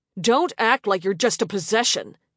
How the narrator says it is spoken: he snapped

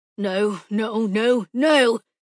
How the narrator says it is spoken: Kay Zonfos growled as he saw the angle of the sun through the trees

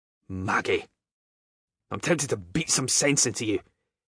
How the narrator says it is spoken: growled out, no preamble given

